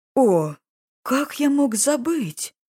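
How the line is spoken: Booming king exclaiming. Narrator (Russian): воскликнул громогласного короля

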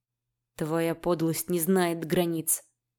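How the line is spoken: Through gritted teeth. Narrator (Russian): процедил змей

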